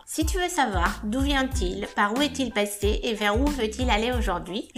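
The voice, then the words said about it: Slight foreign accent in French. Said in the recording (French): “comme tu peux l'entendre, j'ai un petit accent”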